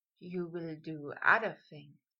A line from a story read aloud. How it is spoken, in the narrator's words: Draco breathed, voice stroking Potter